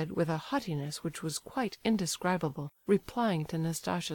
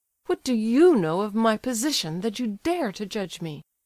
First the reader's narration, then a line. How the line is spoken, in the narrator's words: cried Nastasia, quivering with rage